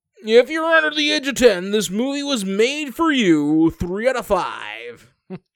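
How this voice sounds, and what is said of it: Radio announcer voice. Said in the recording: “I do a radio voice.”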